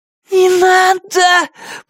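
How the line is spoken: Hoarse, wheezing. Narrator (Russian): просипела Памела

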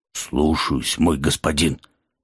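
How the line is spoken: Dejected, forced out. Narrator (Russian): подавленно выдавил оправившийся от удара вампир

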